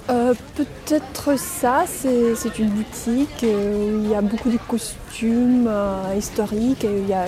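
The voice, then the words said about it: Pleasant foreign accent in French. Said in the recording (French): “Mais vous avez un joli accent.”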